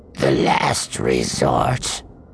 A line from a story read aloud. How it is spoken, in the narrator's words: the Mustafarian said, his voice sounding muffled through the breath mask